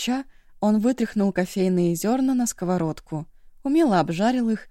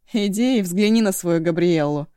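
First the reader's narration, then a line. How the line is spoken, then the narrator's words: Snorted. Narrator (Russian): фыркнул Эшу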